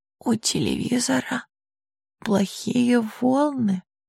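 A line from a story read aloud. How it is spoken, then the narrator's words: Girl's weak whisper. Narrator (Russian): слабо прошептала девочка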